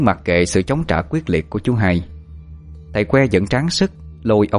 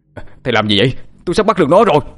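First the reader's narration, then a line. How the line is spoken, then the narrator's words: Frustrated loud shout. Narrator (Vietnamese): Thấy mình bị ngăn cản, chú Hai quát lớn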